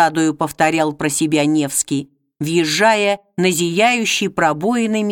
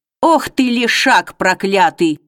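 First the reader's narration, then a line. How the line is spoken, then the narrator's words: Growling. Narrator (Russian): рыкнул купец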